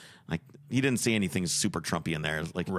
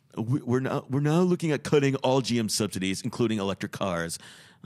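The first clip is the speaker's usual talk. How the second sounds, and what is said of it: Imitates another person's voice. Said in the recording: “I don't know if I can do a Trump accent. ... So I can't really do it.”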